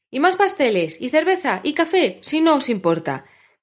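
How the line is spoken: Dwarves shouting behind door. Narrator (Spanish): gritaron los otros enanos al otro lado de la puerta

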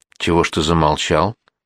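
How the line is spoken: Plain. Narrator (Russian): спросил Ухлин

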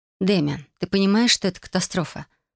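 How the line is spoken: Gentle explaining. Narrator (Russian): начала мягко объяснять

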